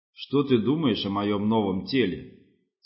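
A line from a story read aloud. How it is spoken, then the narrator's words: Low humming voice. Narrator (Russian): спросил Гемерте низким гудящим голосом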